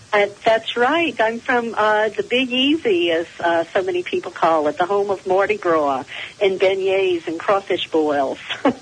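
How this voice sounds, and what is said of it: New Orleans accent. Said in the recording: “I'm detecting an accent. I think you told me you're from New Orleans.”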